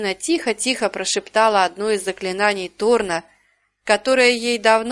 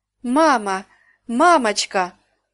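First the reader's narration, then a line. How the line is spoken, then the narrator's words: Exclaiming. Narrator (Russian): воскликнула Карина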